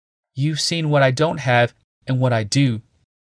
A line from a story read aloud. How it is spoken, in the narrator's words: she answered, slowly